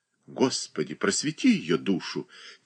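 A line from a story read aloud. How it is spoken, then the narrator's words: Quiet, dry voice. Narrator (Russian): тихо промолвил сухой голос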